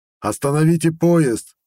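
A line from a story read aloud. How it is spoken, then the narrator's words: Yelling. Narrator (Russian): заорал я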